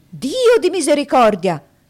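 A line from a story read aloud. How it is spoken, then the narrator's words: Doctor's exclamation. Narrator (Italian): fu la terza esclamazione del dottore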